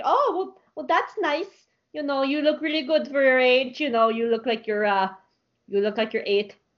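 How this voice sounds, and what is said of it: Roleplay character accent. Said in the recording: “That's my character's accent ... that's my character's accent that I roleplay with”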